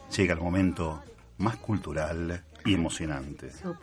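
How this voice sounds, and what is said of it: Announcer-style radio voice. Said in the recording (Spanish): “Tu voz de locutor total.”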